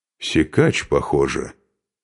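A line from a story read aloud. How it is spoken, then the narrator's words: Quiet. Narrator (Russian): негромко произнес Бьярни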